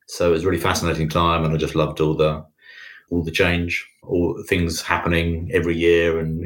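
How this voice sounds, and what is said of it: British accent. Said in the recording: “I'm guessing from the accent that you're not originally from America ... Born and bred in the UK.”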